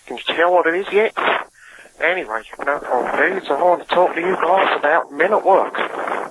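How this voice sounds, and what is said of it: Deliberately bad put-on accent. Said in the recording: “a new accent from ... doing another terrible accent”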